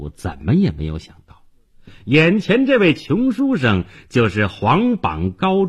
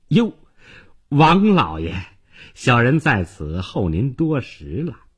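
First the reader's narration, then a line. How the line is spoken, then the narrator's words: Fawning, smiling. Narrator (Chinese): 他立即换上一副笑脸，哈巴狗似的说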